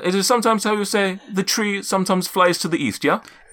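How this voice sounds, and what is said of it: Inconsistent put-on character accent. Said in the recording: “My accent's just all over the place... This is the accent.”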